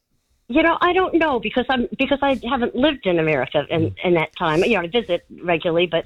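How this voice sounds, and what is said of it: Slight foreign accent. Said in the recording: “do I detect a slight accent”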